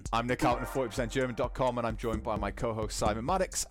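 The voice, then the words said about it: Slight northern English Geordie accent. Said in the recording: “you did Garten with a little northern twang ... I still have residual ... residual Geordie”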